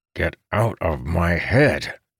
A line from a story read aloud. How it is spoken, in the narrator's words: he snarled through clenched teeth